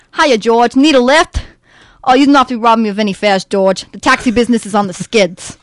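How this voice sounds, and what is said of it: Put-on New York accent. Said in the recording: “for him, I do this New Yorker accent. And for this role, I learned how to do a New Yorker accent, so I'm still working on it. But I think it's pretty good”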